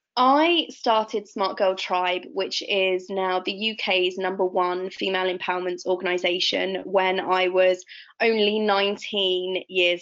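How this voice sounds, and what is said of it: Voice sounds sick with flu. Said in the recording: “I have had the flu for a couple of weeks actually, so apologies if you hear that in my voice”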